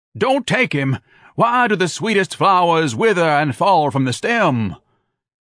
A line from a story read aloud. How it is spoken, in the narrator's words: Insane with grief, tears boiling from her reddened eyes, screaming drunkenly